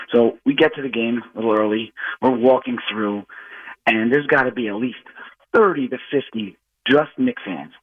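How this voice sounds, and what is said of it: Slightly hoarse voice. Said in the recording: “I might be a little hoarse just from all the screaming and stuff”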